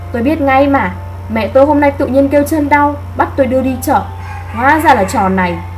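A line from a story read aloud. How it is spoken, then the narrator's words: Dismissive wry laugh. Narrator (Vietnamese): anh chàng tên Cường cười nhạt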